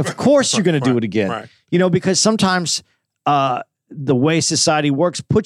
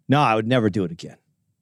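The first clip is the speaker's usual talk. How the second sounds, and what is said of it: Sarcastic delivery. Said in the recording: “That was sarcasm.”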